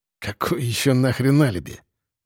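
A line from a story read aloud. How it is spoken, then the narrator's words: Hissed. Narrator (Russian): прошипел я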